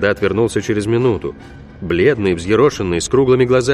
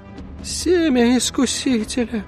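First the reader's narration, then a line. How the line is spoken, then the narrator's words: Groaning. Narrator (Russian): простонал отец Даниэль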